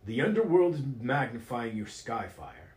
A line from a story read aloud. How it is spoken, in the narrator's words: exclaimed Baron Lundgren, who looked gravely concerned